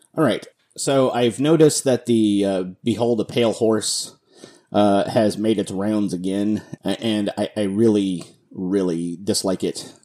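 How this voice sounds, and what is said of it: Lower, deeper voice than usual. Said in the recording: “I'm still getting over the flu ... my voice is a little, down here ... the rest of the time, I think I sound like a teenager”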